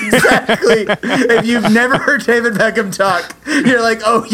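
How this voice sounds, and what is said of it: Usual voice. Nothing is said of it.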